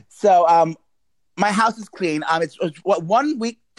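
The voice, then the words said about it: Nervous stuttering speech. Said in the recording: “I'm stuttering. I'm getting nervous.”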